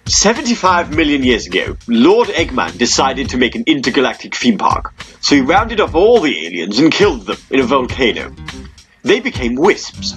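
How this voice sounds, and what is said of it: Posh voice, Frank Underwood-like. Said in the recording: “Oh no, sorry, I'm doing it in a posh voice, aren't I? ... I can't figure out if you're being in Frank Underwood ... Bit both.”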